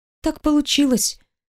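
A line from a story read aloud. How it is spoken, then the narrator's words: Quiet answer. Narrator (Russian): отвечает тихо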